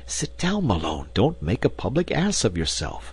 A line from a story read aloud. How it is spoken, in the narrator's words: Tarp Henry, my companion, I heard him whispering